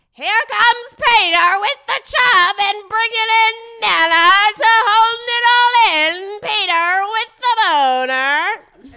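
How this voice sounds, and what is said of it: Imitates another person's voice, circus-ringmaster style. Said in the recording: “do an impression of Jared Fried ... A circus ringer”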